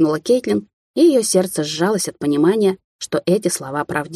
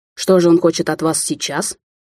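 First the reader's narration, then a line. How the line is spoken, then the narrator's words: Indignant. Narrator (Russian): Возмутился сыщик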